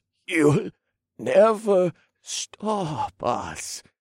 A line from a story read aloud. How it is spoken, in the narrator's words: he gasped